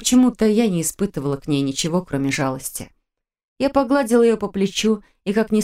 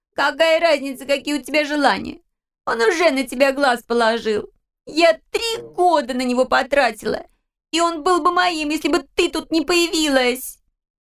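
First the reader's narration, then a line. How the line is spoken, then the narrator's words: Sobbing, snapping. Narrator (Russian): огрызалась через плечо, все ее тело сотрясалось от рыданий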